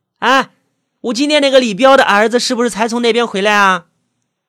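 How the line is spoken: Loud calling question. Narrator (Chinese): 老板娘大叫一声，对着灶台那边的服务员问道

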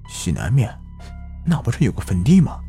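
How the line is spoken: Low, sudden realization. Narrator (Chinese): 老二忽然灵光一闪，低声说

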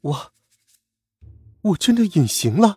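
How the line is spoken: Trembling voice. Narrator (Chinese): 她的声音有些颤抖的说

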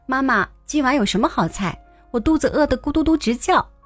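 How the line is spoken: Child calling out. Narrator (Chinese): 孩子放下书包就跑进厨房喊

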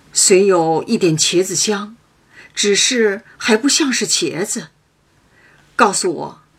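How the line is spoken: Laughing. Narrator (Chinese): 刘姥姥笑道

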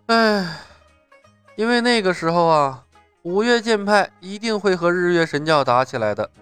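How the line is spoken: Long sigh. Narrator (Chinese): 李牧悠悠的叹息了一声

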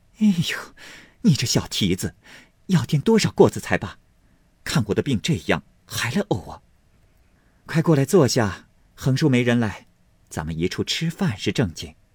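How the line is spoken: Laughing. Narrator (Chinese): 凤姐笑道

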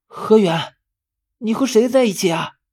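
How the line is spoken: Distant voice. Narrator (Chinese): 十三的声音是从另一头传来的

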